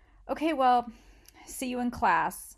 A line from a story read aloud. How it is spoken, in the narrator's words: she said